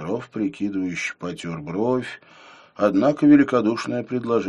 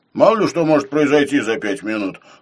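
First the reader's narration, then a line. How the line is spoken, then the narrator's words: Skeptical snort. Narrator (Russian): хмыкнул Филипп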